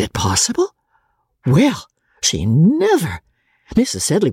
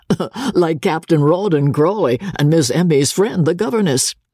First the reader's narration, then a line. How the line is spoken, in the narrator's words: Dobbin said, laughing